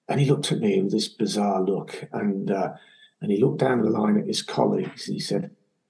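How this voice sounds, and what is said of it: English accent. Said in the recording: “in my English accent”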